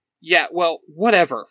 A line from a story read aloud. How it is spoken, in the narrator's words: Fred snaps